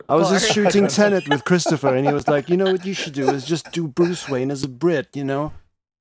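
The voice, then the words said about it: Put-on Liverpool accent. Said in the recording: “Why do you sound like you're from Liverpool?”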